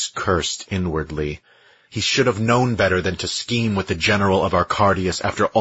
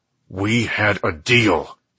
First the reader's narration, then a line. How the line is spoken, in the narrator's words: Dex said through gritted teeth